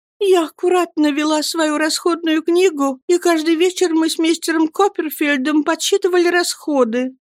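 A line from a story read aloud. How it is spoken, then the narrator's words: Despairing sobbing. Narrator (Russian): прорыдала матушка, снова впадая в отчаяние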